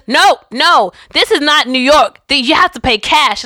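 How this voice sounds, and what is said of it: Awful put-on New Jersey accent. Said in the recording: “my awful New Jersey accent”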